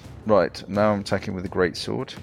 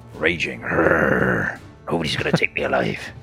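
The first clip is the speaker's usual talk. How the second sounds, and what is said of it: Inconsistent pirate-like put-on accent. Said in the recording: “Is he a pirate now? His accent moves around. ... I'm still working on the accent.”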